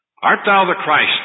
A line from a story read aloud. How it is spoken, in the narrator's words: they said